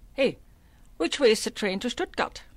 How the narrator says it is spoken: Her booming voice carried through the clamor

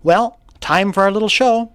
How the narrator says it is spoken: My mother said in a bright voice

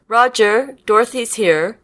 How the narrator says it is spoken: shouted over her shoulder

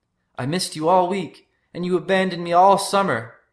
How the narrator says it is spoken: Polly yelled

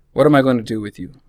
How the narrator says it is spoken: Rachel sighs

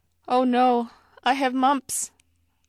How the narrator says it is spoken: I cried

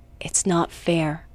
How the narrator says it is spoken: Todd whispered

